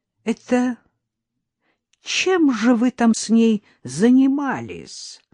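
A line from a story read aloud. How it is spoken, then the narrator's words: Loud surprise. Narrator (Russian): громко удивился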